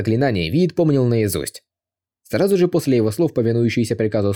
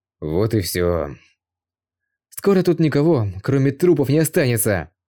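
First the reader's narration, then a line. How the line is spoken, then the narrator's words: Laughing. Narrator (Russian): Дракон же рассмеялся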